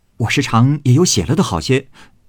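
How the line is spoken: Laughing. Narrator (Chinese): 宝玉笑道

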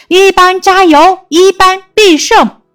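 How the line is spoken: Crowd cheering loudly. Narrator (Chinese): 呐喊声响彻操场

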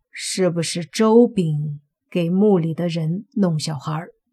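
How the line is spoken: Hoarse, agitated voices. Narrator (Chinese): 两个水鬼似乎有些激动了，从嘴里沙哑的冒出声音说

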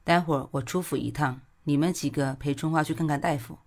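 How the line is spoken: Faint smile. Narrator (Chinese): 古欣欣淡淡一笑，说

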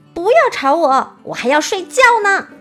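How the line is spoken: Loud shout, woken up. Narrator (Chinese): 王后被他们吵醒后，大喊道

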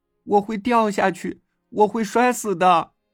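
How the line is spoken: Crying. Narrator (Chinese): 我哭着说

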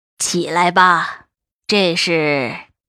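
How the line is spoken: Old woman, cold. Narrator (Chinese): 老太太……冷冷道

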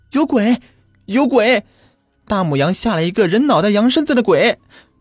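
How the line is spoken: Panicked wailing screams. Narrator (Chinese): 小柱子鬼哭狼嚎的，边跑边叫唤

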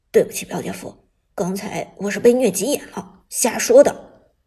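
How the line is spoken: Cough, then low voice. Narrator (Chinese): 徐旺也咳嗽一声，低声道

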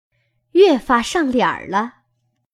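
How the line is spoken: Laughing. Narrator (Chinese): 麝月笑道

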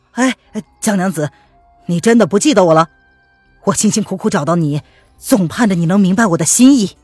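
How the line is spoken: Hurried. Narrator (Chinese): 汤姆龙急忙道

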